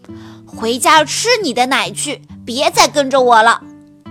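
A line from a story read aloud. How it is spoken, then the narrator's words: Angry. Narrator (Chinese): 说完，他生气地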